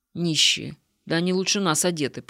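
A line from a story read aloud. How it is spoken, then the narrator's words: Grumbling. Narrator (Russian): пробурчал Егор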